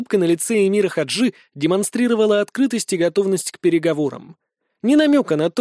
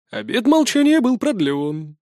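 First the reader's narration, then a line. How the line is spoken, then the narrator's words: Sad sigh. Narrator (Russian): печально вздохнул Кемаль Сарента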